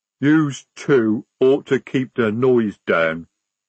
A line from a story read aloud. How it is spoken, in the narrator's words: rumbled Jade